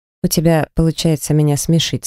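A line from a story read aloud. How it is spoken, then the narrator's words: Plain. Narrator (Russian): сказал он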